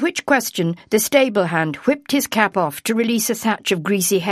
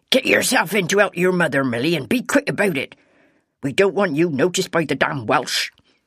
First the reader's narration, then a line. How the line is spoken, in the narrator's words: The ostler saying sharply